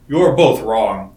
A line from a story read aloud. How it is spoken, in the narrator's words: said Vanaman